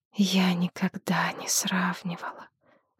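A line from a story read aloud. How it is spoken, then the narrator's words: Soundless whisper. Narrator (Russian): беззвучно шепнула жрица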